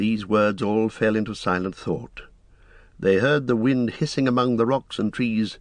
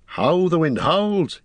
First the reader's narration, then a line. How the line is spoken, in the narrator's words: he cried